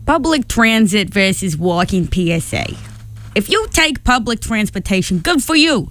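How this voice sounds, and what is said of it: Exaggerated funny put-on accent. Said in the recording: “I do like to do funny accents, so I'm going to read this PSA in an exciting funny accent.”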